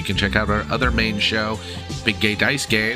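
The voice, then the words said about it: Congested, hoarse, partly lost voice. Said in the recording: “I apologize for my voice not being right. I am sick and congested and partially losing my voice.”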